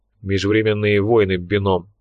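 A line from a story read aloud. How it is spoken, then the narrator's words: Displeased mutter. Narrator (Russian): пробурчал Лунин, которому эта идея чрезвычайно не понравилась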